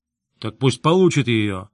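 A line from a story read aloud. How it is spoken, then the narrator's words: Irritated interruption. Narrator (Russian): раздраженно перебил верховный Шатцур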